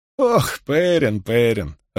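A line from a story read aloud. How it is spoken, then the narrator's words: Laughing. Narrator (Russian): рассмеялась Марин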